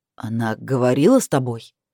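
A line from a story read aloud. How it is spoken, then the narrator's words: Irritated question. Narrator (Russian): раздраженно спросил Крис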